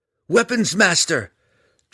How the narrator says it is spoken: Drizzt cried

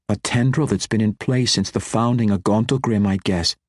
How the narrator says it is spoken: Catti Bree quickly added

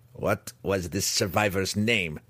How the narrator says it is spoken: the Svirfneblin demanded, angrily

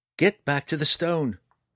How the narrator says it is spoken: Gabriel cried

